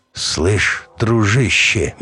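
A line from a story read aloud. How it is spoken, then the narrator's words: Slow start. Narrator (Russian): медленно начал змей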